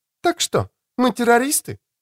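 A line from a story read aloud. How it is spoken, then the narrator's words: Cheerful. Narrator (Russian): весело сказала Джулия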